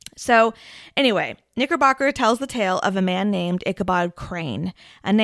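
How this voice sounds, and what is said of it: Usual voice. Nothing is said of it.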